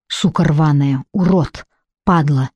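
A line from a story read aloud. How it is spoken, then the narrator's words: Muttering, crying out in pain. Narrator (Russian): бормотала Лара, вскрикивая от боли, когда губка касалась синяков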